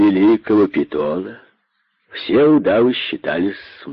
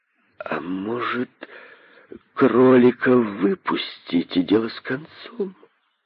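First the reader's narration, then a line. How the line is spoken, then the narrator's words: Uncertain snake voice. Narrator (Russian): неуверенно проговорил один из удавов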